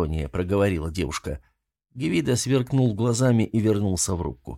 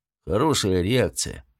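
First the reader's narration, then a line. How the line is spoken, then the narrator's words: Gloomy. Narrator (Russian): мрачно сказал он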